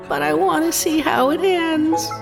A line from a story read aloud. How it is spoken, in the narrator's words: One man whimpers